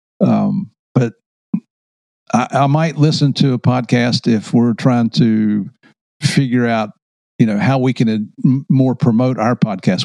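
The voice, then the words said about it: Country accent. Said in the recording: “I know I have a country accent”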